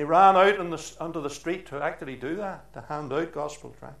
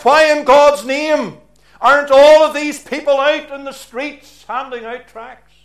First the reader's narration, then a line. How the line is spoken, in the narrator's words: he called out